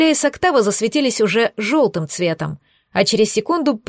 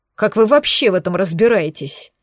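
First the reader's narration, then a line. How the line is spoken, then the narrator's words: Displeased mumble. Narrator (Russian): Недовольно пробурчал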